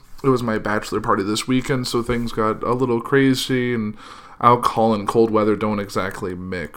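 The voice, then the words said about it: Hoarse, slightly sick voice. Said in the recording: “My voice is a little hoarse, and I'm a little sick.”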